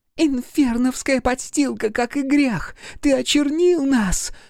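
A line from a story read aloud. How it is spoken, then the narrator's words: Woman screaming. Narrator (Russian): завопила какая-то женщина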